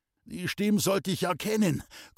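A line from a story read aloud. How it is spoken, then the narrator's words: Panting. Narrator (German): keuchte Lenl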